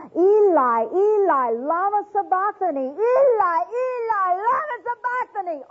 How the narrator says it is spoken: Jesus all of a sudden began to scream

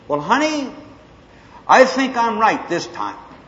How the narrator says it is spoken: So I screamed

